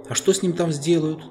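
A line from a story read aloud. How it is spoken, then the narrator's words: Anxious question. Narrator (Russian): взволнованно спросила Люси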